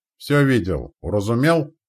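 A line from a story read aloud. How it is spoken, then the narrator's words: Bellowed. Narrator (Russian): гаркнул Митяй Анцифор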